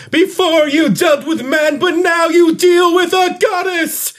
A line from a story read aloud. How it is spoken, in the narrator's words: I'm going to yell